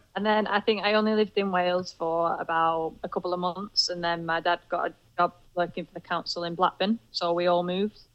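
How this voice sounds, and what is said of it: Broad Lancashire accent. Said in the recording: “I've got a Lancashire, broad Lancashire accent ... rather than a nice Chester or Welsh accent”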